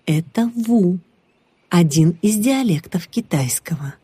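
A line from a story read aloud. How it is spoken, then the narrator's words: Plain. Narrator (Russian): ответил тот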